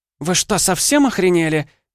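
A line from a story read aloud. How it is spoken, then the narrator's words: Shrieking. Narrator (Russian): взвизгнула Ванда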